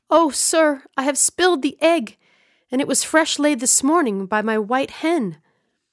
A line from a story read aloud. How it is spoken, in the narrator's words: in dismay, he exclaimed